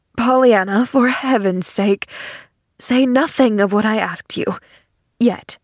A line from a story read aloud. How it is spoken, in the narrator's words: he begged in a low voice